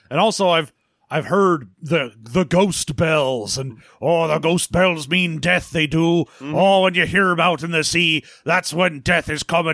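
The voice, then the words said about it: Thickening put-on Cornish fisherman accent. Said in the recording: “Cornish fishermen ... every time I say a word, my accent gets thicker and thicker”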